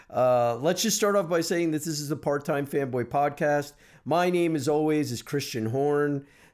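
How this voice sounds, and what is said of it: Slightly congested voice. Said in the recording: “Still kind of recovering from a little bit of a sinus infection ... Maybe you can hear it in my voice. I'm a little sounding a little congested.”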